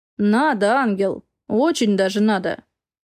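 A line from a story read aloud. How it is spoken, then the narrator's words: Hoarse whisper. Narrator (Russian): Хрипло шепчет Макс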